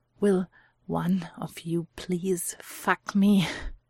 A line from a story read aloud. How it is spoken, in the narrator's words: manages between gasps